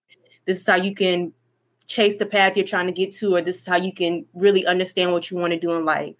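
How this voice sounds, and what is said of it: Voice cracking with emotion. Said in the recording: “my voice cracking”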